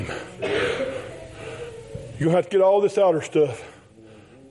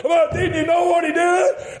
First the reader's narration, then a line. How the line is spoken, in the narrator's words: He cried out again